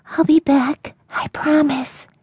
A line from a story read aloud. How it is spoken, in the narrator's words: Pressing her face into his mane, she whispered